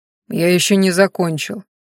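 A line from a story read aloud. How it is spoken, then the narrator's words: Gloomy statement. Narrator (Russian): мрачно сообщил Ранхаш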